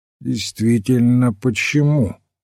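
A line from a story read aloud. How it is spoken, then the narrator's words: Level questioning voice. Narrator (Russian): ровным голосом переспросил Вендом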